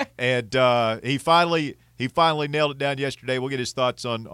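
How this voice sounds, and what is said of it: Usual voice. Nothing is said of it.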